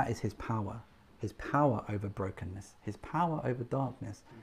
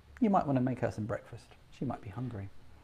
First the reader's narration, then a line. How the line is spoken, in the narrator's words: calmly and suggest